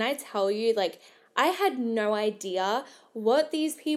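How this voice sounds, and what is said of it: Usual voice. Nothing is said of it.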